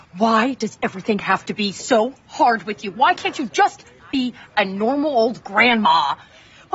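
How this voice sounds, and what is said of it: Screaming angrily. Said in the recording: “I'm screaming at a princess party, mom. I'm screaming at a princess party.”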